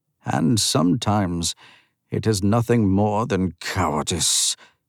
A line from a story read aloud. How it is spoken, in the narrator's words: he rumbled